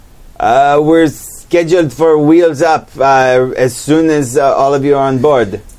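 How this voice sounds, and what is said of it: Put-on French accent. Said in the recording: “another French accent”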